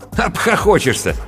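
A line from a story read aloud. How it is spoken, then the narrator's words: Snorting. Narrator (Russian): фыркнул сценарист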